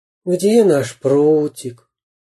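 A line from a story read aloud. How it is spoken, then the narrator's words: Sighing. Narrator (Russian): вздохнул Карандаш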